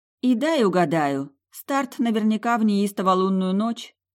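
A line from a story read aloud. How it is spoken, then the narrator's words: Grim joke. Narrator (Russian): мрачно пошутила я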